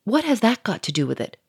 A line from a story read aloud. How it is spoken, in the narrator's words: growled the millionaire quickly